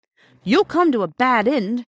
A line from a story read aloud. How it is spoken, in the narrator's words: she said furiously